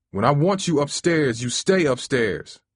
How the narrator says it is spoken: he yelled

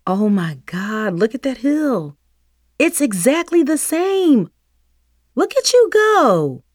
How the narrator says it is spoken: exclaimed

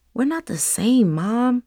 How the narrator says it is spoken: Nevaeh whispered

